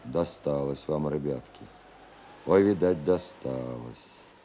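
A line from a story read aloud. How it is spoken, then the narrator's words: Sighing, sympathetic. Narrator (Russian): вздохнул … и пожалел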